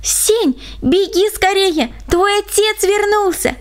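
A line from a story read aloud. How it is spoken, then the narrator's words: Excited young girl. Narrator (Russian): моя названная сестричка и взволнованно сообщила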